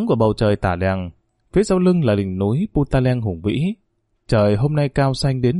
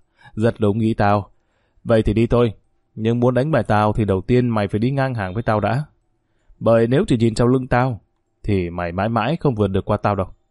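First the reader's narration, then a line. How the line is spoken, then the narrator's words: Bursting into laughter. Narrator (Vietnamese): Tuấn cười phá lên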